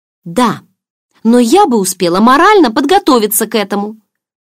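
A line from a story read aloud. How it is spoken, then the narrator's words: Exclaimed. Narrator (Russian): воскликнула я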